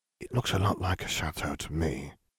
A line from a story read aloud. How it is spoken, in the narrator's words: Harry whispered